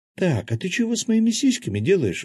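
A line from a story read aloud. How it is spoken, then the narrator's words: Sudden exclamation. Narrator (Russian): вдруг воскликнула Кристина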